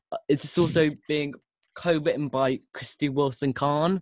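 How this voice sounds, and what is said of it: Usual voice. Nothing is said of it.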